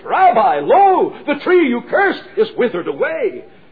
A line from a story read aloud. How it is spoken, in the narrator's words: Peter exclaims and says